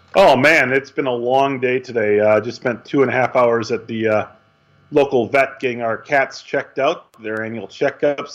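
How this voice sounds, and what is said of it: Hoarse, fading voice. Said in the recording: “they probably can tell already, but I'm starting to lose my voice. So in case you hear dead air, it's probably me.”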